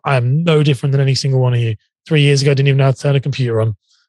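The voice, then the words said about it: British accent. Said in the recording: “he's got a fancy British accent”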